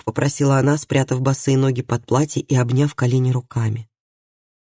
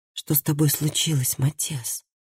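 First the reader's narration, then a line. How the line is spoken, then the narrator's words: Quiet question. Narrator (Russian): тихо спросила Хильди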